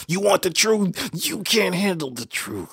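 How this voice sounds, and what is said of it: Poor imitation of another person's voice. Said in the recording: “You're not trying to convince me that was Jack Nicholson. ... that was a bad accent. That was probably like my least best.”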